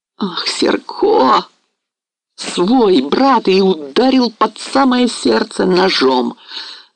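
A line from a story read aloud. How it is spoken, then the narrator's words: Groaning. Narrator (Russian): застонал гетман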